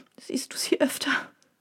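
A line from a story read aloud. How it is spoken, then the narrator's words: Sobbing. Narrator (German): schluchzte sie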